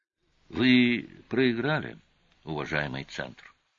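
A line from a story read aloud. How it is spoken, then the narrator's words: Calm. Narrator (Russian): спокойно сказал Олис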